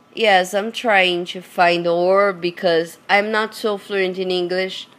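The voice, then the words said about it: Hoarse, low sore-throat voice. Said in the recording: “my voice is like that ... when your throat are like hurting and you just sing low, in a low voice ... Horse”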